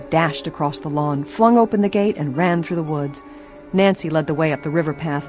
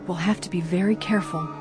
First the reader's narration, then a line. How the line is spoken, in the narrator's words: she warned in a whisper